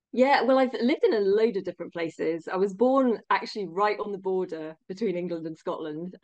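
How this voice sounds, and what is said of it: English accent. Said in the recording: “your English accent tells me you're from England originally”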